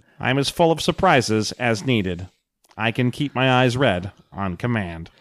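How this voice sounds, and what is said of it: Flat robotic character voice. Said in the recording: “my flat robot accent”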